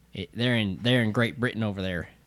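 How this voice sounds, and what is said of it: Put-on Southern redneck accent. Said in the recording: “Stop talking like that. ... my natural accent ... My natural accent, even though I ain't from anywhere in the South. ... we're rednecks at heart”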